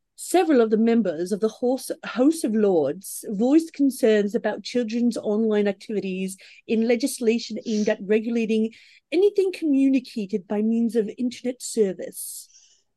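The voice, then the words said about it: Posh British accent. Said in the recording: “Well, you went posh.”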